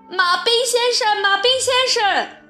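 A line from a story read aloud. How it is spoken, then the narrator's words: Loud shout. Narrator (Chinese): 他大喊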